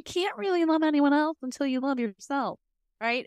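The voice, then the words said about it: Slight Southern twang. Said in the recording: “you added like, a little southern twang in there”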